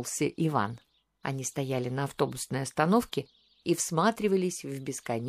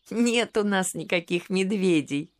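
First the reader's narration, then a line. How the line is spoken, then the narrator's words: Laughing. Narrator (Russian): рассмеялась София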